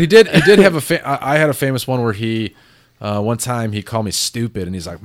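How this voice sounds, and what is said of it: Usual voice. Nothing is said of it.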